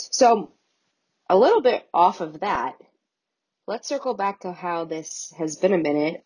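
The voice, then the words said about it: Sick, cracking, dry-throated voice. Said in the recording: “I'm a little sick, so that's why my voice keeps on cracking out... I keep on getting a dry throat... I hope I don't sound terrible”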